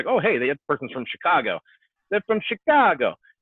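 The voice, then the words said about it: Poor put-on Chicago accent. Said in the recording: “you can't hide a Chicago or a New York accent ... that was a terrible impression.”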